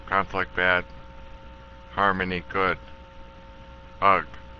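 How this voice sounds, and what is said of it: Grunting caveman voice. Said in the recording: “the reason I'm saying ugh is like a caveman, and I don't know how else to do a caveman ... I'm doing fine being a caveman”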